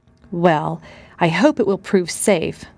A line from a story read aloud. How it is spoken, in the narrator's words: sighed Mrs